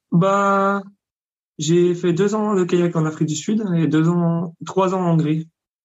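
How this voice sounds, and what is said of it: Slight regional French accent. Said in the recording (French): “tu as, un petit accent quand je t'entends ... Je suis de Franche-Comté. ... tu as un bel accent.”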